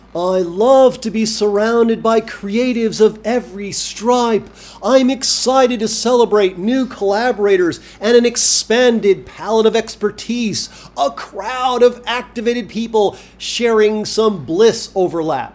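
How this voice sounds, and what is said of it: Imitates an enlightened person complaining. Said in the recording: “my impersonation of how an enlightened person might complain”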